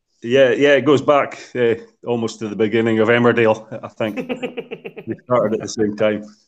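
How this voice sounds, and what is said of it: Scottish accent. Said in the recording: “obviously you've got a Scottish twang, more of a Caledonian twang to your accent”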